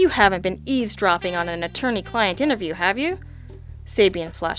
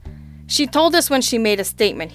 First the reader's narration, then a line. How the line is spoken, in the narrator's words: he said testily